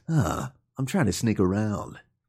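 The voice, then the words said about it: Imitated video game character voice. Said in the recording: “your Snake voice? ... it's pretty good.”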